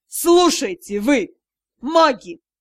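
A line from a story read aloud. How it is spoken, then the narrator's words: Growl. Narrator (Russian): прорычал тот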